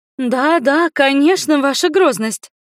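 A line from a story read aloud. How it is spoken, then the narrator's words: Joyful agreement. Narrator (Russian): радостно закивала Гурия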